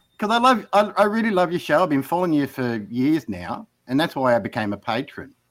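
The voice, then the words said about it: Strong regional accent. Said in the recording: “my accent is so strong”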